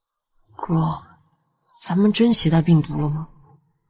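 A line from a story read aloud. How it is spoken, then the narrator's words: Quiet, worried. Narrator (Chinese): 严六元比较敏感，他皱眉小声道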